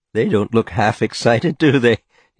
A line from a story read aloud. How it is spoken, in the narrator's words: he said, and laughed